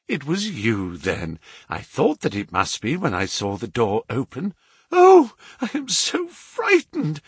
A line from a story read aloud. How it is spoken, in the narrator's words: I panted